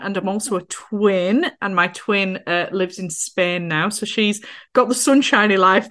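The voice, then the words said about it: North Yorkshire English accent. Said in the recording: “as you can probably tell from my accent, from a little town called Skipton in North Yorkshire”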